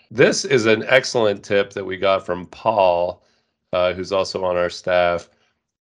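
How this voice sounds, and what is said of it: Nasal, congested voice. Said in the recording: “in my most nasally voice that I have right now”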